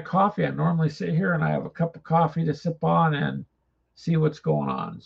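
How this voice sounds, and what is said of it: Raspy, dry-throated voice. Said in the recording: “my throat is dry ... Put up with my voice a bit raspy”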